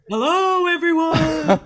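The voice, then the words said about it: Spooky voice. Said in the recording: “Doing like a spooky voice.”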